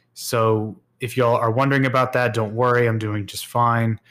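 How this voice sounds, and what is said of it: Weaker voice, recovering from illness. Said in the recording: “my voice sounds a bit different this time, I am in the middle of getting over the flu, and my voice is a bit weaker than usual”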